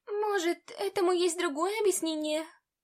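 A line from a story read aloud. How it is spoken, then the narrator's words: Hopeful squeak. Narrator (Russian): С надеждой пискнула Талия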